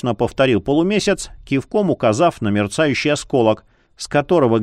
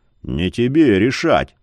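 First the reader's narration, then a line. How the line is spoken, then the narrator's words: Gloomy. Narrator (Russian): мрачно проговорил Яр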